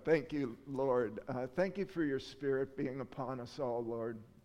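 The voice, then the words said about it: Choked-up, emotional voice. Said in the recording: “I'm a little choked up.”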